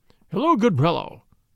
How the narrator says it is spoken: quoth he in a jovial voice

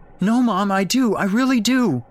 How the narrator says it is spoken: Jake wailed, now distraught as well as confused

